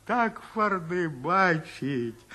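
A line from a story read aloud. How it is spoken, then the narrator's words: Whiny old man. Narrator (Russian): Плаксивым голосом говорил все свое старик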